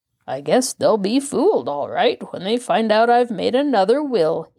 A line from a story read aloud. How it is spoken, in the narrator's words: he said, with that odd little chuckle of his